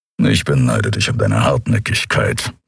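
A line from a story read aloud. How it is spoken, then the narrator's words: Grumbled. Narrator (German): brummte Kero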